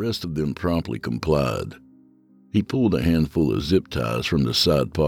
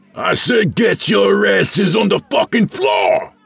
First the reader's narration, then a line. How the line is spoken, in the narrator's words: The intruder roared